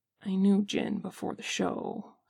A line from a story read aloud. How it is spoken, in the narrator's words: says Jimin softly